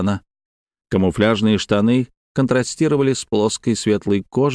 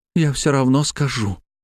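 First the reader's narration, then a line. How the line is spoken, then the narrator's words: Breathed out. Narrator (Russian): выдохнула она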